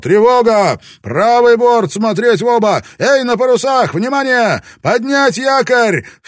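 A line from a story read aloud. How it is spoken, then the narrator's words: Immediate shout. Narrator (Russian): Родригес тут же закричал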